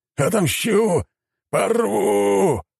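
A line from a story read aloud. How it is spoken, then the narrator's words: Roar. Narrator (Russian): взревел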